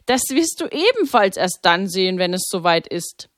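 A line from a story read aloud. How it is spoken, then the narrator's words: Laughing. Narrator (German): lachte Pater Maximilian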